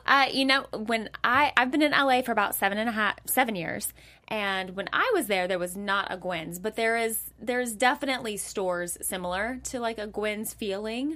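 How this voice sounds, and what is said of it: Southern US accent. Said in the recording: “Are you from the South? ... I'm from Nashville. ... Okay, so the accent, I knew it.”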